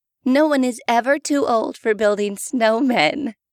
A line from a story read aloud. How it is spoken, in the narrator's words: Rebecca's mother said, and laughed